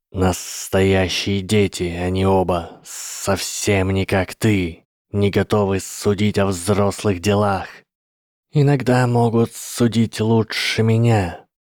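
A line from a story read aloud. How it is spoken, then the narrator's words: Hissed. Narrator (Russian): прошипел Гарри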